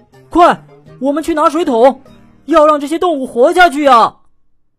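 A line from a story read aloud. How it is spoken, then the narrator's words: Shouting. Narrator (Chinese): 迪伦大喊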